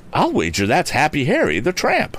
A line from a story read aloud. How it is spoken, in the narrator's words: he exclaimed